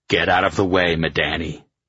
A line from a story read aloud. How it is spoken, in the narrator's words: I growled